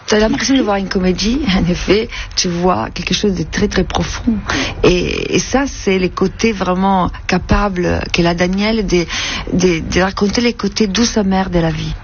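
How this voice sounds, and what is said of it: Woman speaking French with accent. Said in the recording (French): “il y avait un accent chez cette dame ... Un accent”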